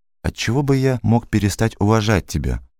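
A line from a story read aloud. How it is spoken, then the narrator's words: Plain. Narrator (Russian): спросил Гуров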